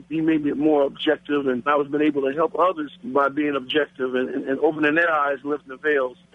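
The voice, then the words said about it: Black American accent. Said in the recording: “As you can tell by my voice, Father, that I'm a black American.”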